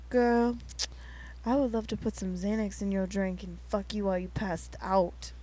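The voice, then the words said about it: Low-toned suave R&B voice. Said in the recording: “real suave ... that sort of accent ... my like lower toned R&B”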